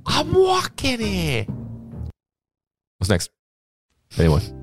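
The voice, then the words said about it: Yelled put-on New York accent. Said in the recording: “The only way to do a New York accent for me is yelling.”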